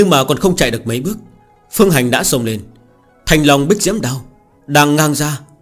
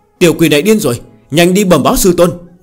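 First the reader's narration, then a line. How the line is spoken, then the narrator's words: Shouting loudly while fleeing. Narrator (Vietnamese): Quát to một tiếng, xoay người bỏ chạy, trong miệng đồng thời hét lớn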